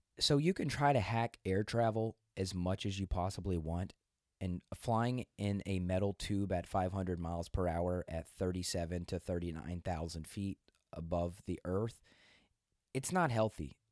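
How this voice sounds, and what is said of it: Weak, strained voice. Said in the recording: “my voice is weird ... I lost my voice for about 2 days”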